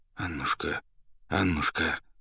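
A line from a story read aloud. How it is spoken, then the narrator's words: Anxious mumbling. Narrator (Russian): забормотал поэт, тревожно озираясь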